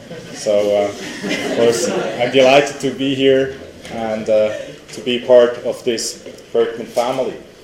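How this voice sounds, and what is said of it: European accent. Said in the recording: “You can hear that from my accent, ... that I'm European.”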